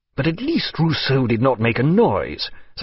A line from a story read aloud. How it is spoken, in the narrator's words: said Maturin, looking angrily